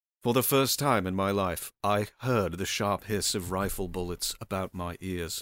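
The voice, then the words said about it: Shifting put-on accents while reading. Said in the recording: “I'm going through like 10 different accents right now.”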